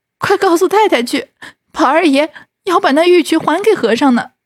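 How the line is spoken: Crying. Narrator (Chinese): 袭人哭道

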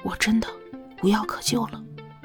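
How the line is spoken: Hoarse, confused. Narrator (Chinese): 他眼里迷惑，口中沙哑的蹦了一句话出来

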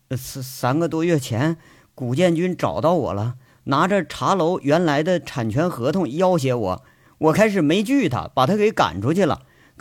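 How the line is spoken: Murmuring. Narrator (Chinese): 陆超喃喃的说着

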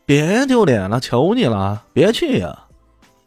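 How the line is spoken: Loud shout. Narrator (Chinese): 曲线流的弟子直接大声喊道

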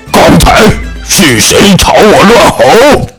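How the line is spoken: Furious roaring. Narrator (Chinese): 瞪大了愤怒的眼睛，大声咆哮着说

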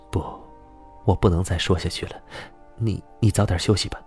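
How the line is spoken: Hushed low voice. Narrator (Chinese): 小芝压低了声音说

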